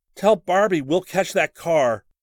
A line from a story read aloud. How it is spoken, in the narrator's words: Rick yelled